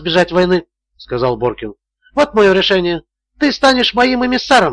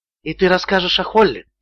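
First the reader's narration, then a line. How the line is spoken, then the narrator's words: Quiet. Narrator (Russian): тихо промолвил Боркин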